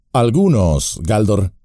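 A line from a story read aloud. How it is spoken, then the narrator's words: Plain. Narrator (Spanish): dijo Gandalf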